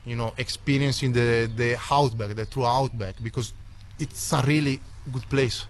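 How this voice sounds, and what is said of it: Italian accent. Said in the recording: “an Italian backpacker ... What a fantastic accent.”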